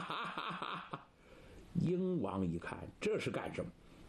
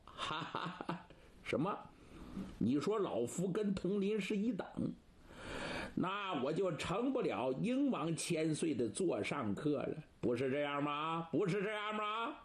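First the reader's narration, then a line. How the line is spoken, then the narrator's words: Hearty laughter. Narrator (Chinese): 盛玉哈哈大笑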